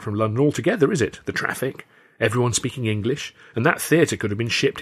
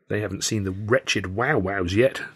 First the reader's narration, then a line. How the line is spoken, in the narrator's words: Tilly muttered